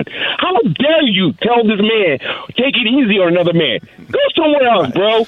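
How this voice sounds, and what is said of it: Yelling, amped-up voice. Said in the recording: “sorry for yelling,... I'm so amped”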